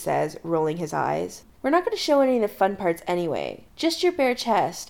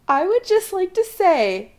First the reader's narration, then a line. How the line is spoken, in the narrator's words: Allison says, face cherry red from laughing